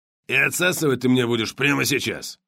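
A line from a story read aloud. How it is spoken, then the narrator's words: Suddenly very rough. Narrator (Russian): Джимми вдруг заговорил очень грубо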